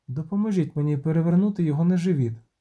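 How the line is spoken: Plain woman's voice. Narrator (Ukrainian): сказала жінка

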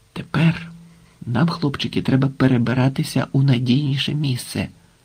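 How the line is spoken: Whisper. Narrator (Ukrainian): пошепки мовив Швайка

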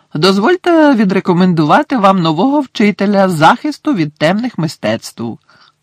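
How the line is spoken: Cheerful words in silence. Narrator (Ukrainian): весело пролунали Дамблдорові слова

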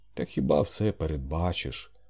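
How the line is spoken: Sighing. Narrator (Ukrainian): Він зітхнув

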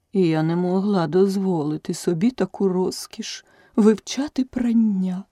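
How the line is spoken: Sighing turtle. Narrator (Ukrainian): зітхнула черепаха

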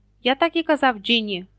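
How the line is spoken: Angry reply. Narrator (Ukrainian): сердито озвався Персі

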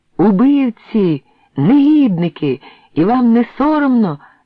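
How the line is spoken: Broken, exhausted shout in Czech. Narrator (Ukrainian): вигукнув я по-чеськи уриваним голосом, тримаючись на воді з останньої сили

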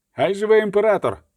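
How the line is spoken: Shouted together. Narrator (Ukrainian): крикнули Тирконель та Егербрахт

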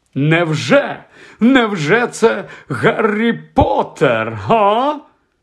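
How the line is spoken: Shouting. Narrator (Ukrainian): зненацька підскочив і закричав

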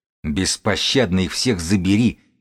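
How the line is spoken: Growling. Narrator (Russian): прорычал бегун

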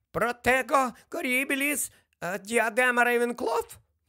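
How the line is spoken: Squeaked. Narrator (Ukrainian): пропищав Флитвік

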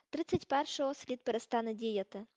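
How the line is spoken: Plain. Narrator (Ukrainian): сказав Гаррі

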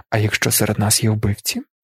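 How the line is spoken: Quiet question. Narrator (Ukrainian): тихо запитав той

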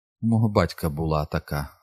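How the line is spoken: Sad. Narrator (Ukrainian): сумно сказала вона

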